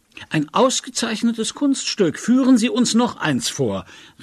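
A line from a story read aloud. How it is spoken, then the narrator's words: Calling out. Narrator (German): rief der Batteriekommandeur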